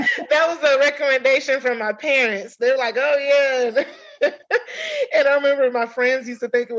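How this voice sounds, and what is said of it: Usual voice. Nothing is said of it.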